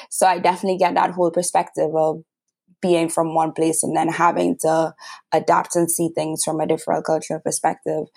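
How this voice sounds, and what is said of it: Trinidadian accent. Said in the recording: “as you can tell, I'm from Trinidad and Tobago by my accent.”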